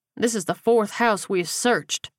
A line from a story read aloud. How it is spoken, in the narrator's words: Reed grunted